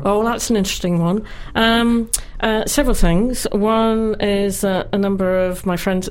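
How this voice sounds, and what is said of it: English accent, northeast England. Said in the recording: “that's a lovely English accent you have there”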